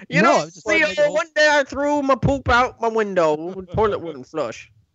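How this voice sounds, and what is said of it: Imitates another person's voice. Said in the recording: “doing a Cosby impression”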